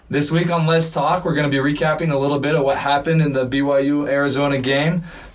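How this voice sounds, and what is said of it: Strained, worn-out voice. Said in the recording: “Sorry if I sound a little bit different. ... My voice is still recovering from the BYU-Arizona game.”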